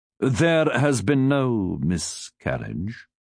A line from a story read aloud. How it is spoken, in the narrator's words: Cecil said solemnly